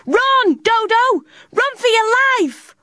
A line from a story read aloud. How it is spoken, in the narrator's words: Completely forgetting her fear, Tilly shouted as hard as she could